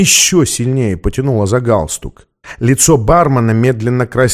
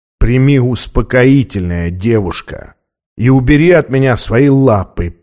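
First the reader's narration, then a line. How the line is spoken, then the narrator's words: Said through teeth. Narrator (Russian): процедил он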